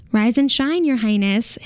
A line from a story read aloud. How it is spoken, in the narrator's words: his manservant says brightly